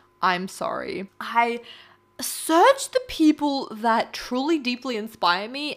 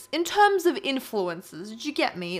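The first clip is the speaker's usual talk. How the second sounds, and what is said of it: Put-on British accent. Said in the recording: “I broke out into a British accent.”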